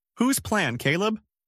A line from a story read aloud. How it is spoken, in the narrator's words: voice rose